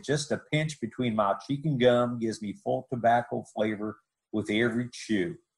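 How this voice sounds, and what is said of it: Good put-on Texas accent. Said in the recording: “you did a great Texas accent there”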